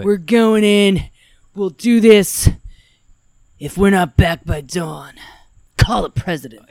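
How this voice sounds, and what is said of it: Jack Burton impression. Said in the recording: “she was not exaggerating. That was a verbatim impression... Jack Burton”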